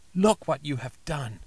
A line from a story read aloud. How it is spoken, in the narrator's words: cried at last